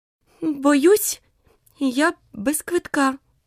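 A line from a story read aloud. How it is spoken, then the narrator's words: Frightened. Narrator (Ukrainian): злякано мовила Аліса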